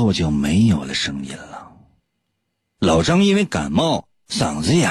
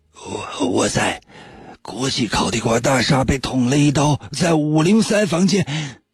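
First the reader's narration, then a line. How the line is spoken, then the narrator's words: Weak hoarse phone voice. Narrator (Chinese): 电话里传来的是国际烤地瓜连锁集团的董事长老张微弱沙哑的声音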